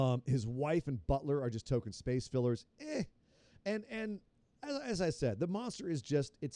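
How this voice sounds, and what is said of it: Usual voice. Nothing is said of it.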